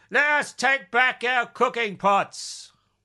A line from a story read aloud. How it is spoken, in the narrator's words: a scream of hurrah rang out from the prisoners